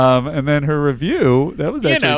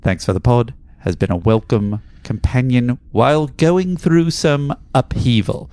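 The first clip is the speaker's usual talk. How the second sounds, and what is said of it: Bad put-on British accent. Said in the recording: “in a bad British accent”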